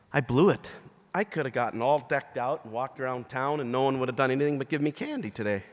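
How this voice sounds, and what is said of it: Hoarse, strained voice. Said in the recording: “I'm losing my voice a little bit”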